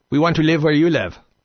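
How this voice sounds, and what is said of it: Put-on Middle Eastern accent. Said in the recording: “that's my Middle Eastern impression... I am no impressionist in any way, shape, or form”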